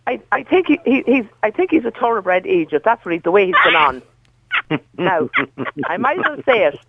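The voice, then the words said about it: Irish County Meath accent. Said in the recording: “I have a Kells accent.”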